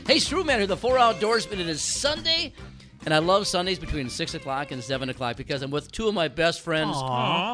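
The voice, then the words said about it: Voice congested from a cold. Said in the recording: “I've got a cold”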